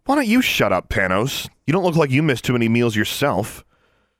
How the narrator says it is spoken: it was Alexandra who snapped

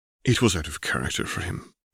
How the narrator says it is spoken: Albus sighed

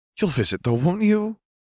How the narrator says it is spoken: Lena Arctura pleaded

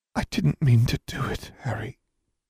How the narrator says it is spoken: whispered

